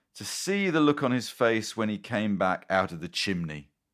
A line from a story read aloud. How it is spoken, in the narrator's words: cried